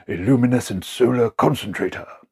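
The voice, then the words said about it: Imitates another person's voice. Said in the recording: “my best Tom Baker impression”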